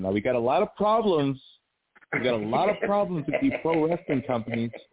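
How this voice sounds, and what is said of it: Good vocal impression. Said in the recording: “Real good impression”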